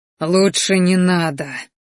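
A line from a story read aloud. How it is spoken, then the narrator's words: Breathy. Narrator (Russian): выдохнул он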